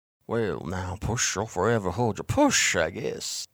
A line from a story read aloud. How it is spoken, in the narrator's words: Bartleby mumbled near me